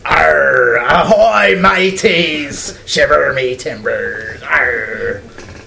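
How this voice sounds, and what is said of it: Pirate voice. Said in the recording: “best pirate impression”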